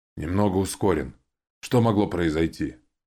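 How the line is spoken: Bored tone. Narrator (Russian): Ким скучающим тоном поведала

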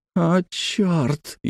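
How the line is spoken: Barely audible whisper. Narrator (Russian): еле слышно прошептал Дженаро

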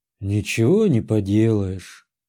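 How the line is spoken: Sighing uncle. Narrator (Russian): вздохнул дядя

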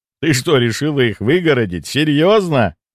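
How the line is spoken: Laughing interruption. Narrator (Russian): Рассмеявшись, перебил я девушку

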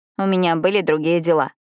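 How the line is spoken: Grumbled. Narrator (Russian): буркнула Пиппа

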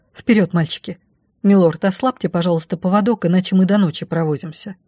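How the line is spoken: Hurried command. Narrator (Russian): я также торопливо скомандовала

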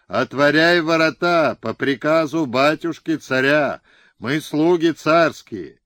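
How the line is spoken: Booming yell. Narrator (Russian): Хлопуша гулким голосом вопил

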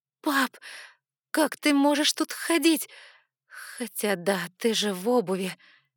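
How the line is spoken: Upset sob. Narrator (Russian): расстроенно всхлипнула я

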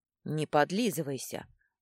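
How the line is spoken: Snort, secretly flattered. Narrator (Russian): фыркнул Компи, но чувствовалось, что он польщен

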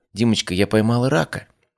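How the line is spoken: Uncertain. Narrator (Russian): Лиза неуверенно сообщила

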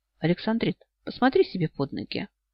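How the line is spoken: Quiet, very calm. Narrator (Russian): Сири тихо, удивительно спокойно сказал

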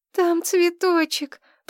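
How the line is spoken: Moaning. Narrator (Russian): простонала

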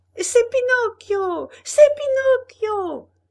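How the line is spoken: Yelled in unison. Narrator (French): hurlèrent en chœur tous les pantins

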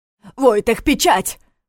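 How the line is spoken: Shout. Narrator (Russian): крикнул ему Неф

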